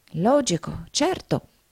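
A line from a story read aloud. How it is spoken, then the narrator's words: Murmured. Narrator (Italian): mormorò Nickleby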